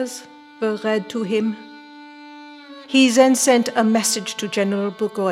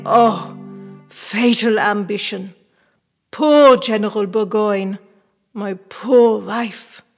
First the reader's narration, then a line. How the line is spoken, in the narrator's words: amidst his groans, exclaim